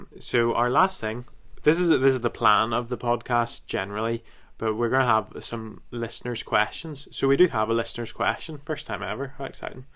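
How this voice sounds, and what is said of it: Northern Irish drawl, flat unenthusiastic delivery. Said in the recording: “I sound thrilled. It's just my Northern Irish drawl. ... I laid it up so badly and so unenthusiastically”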